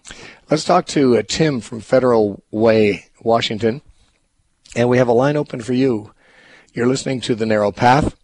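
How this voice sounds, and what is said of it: Slightly hoarse voice. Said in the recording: “I'm a little hoarse today ... other than your voice?”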